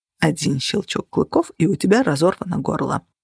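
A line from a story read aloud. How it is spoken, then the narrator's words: Muttering. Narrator (Russian): пробормотал он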